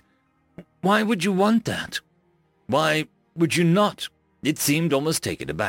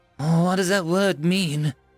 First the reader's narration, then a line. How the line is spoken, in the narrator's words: I asked hesitantly